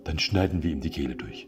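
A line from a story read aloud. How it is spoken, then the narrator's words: Plain. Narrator (German): antwortete eine andere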